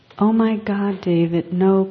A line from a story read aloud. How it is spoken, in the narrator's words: cried Glenda when she saw the bright lights headed straight for their car